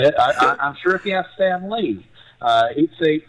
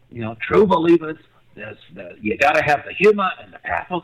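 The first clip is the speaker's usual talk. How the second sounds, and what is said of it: Bad Stan Lee impression. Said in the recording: “that's a really bad Stan Lee impersonation.”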